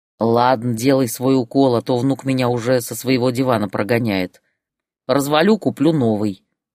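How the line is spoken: Grumbling. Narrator (Russian): проворчал Валера

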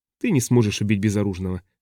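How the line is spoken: Calm remark. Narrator (Russian): спокойно заметила Повин

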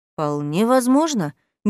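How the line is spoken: Uncertain young man. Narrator (Russian): неуверенно подтвердил молодой мужчина

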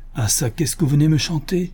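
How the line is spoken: Old man exclaiming. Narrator (French): s'écria le bonhomme

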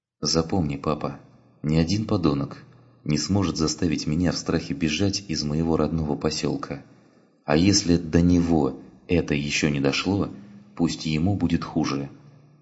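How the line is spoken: Clear and calm. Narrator (Russian): Ташка произнесла, четко и спокойно

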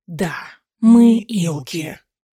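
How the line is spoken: Hiss. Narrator (Russian): прошипел один

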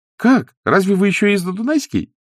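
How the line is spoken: Cheerful question. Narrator (Russian): весело спросила Зося

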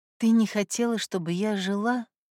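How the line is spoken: Whisper. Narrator (Russian): прошептала Люда

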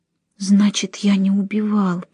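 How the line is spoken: Whisper. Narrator (Russian): прошептал он

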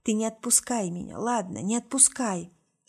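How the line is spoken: Whisper. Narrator (Russian): шептала

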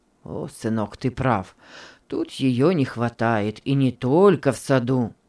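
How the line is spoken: Gloomy reply. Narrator (Russian): мрачно ответил господин Генрих

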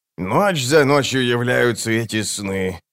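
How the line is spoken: Moaning. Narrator (Russian): простонал Круп

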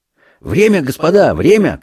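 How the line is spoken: Shouted. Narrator (Russian): крикнул Курапка

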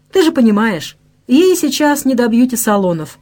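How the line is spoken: Sighing. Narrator (Russian): вздохнула Даша

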